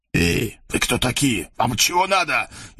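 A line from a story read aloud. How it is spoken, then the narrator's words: Frightened hiss. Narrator (Russian): испуганно зашипел на него главарь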